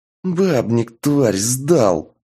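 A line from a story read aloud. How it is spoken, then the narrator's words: Hissed. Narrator (Russian): прошипел Шуст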